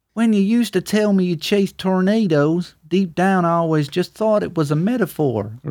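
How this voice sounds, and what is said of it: Put-on southern accent. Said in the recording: “southern accent there, mate. Well done. I like that.”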